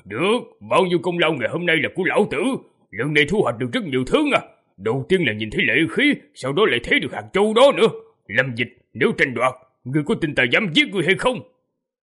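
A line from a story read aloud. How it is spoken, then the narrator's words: Greedy giant laughing loudly. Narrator (Vietnamese): Hai mắt người khổng lồ lộ ra vẻ tham lam, cười lớn, nói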